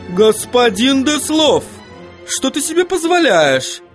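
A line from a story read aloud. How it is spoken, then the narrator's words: Exclaiming. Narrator (Russian): воскликнула госпожа Эликсир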